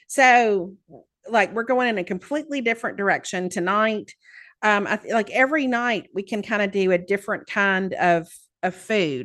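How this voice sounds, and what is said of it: Southern American accent. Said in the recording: “I am so self-conscious about my accent here ... Not that I have an accent, of course ... there are Southerners”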